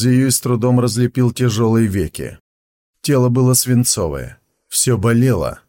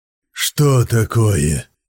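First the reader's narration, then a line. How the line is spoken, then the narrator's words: Hoarse rasp. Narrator (Russian): Прохрипел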